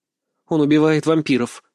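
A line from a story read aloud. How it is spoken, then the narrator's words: Spiteful, through gritted teeth. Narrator (Russian): процедила сквозь зубы, решив задеть брата за живое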